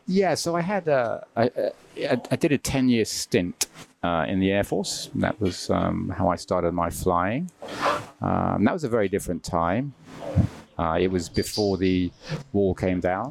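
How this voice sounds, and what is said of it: British accent. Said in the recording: “We can guess by the accent that we're talking about the Royal Air Force.”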